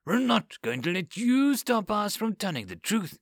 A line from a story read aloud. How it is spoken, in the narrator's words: she spat